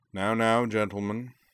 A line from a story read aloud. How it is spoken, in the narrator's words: said Akio dryly